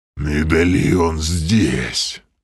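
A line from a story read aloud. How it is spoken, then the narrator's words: Inhuman rasp. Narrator (Russian): совсем уж нечеловеческим голосом прохрипел Грим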